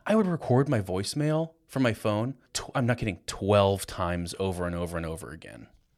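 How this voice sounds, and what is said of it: Deep late-night radio voice. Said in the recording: “late night love song dedications. You got that like deep, deep voice.”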